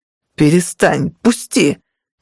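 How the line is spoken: Howling. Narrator (Russian): взвыл

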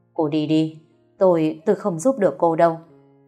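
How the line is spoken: Trembling voice. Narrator (Vietnamese): Thầy Long cất giọng run run

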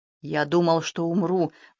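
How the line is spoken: Grim joke. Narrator (Russian): мрачно пошутил Рудольфа

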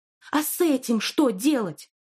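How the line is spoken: Exclaiming. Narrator (Russian): воскликнула она

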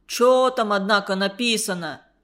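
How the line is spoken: Stern question. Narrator (Russian): строго спросил Степка

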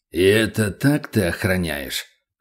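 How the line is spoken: Icy tone. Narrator (Russian): ледяным тоном произнес Бурый

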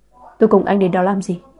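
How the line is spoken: Angry, through gritted teeth. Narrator (Vietnamese): Hân Nhiên tức giận nghiến răng hỏi

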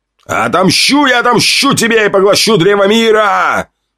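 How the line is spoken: Dying scream. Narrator (Russian): Прокричал он, умирая

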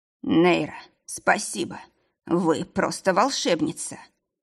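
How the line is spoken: Sick man breathing out. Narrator (Russian): Выдохнул больной

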